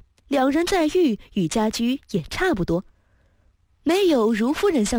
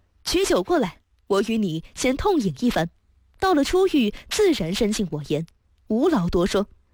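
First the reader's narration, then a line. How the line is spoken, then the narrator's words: Laughing. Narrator (Chinese): 史凡笑道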